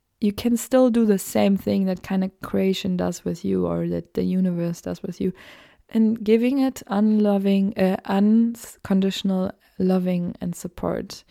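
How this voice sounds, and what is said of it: German accent. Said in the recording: “my German accent, I'm still a German native speaker.”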